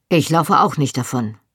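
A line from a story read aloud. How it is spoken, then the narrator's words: Curt. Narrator (German): sagte er schroff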